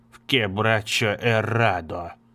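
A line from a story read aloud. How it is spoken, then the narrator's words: Old man muttering. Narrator (Russian): бормотал старик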